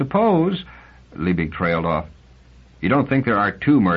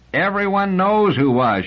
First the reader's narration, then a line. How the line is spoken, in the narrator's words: shouted Liebig